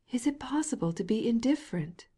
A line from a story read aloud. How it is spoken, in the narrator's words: cried Lydia Ivanovna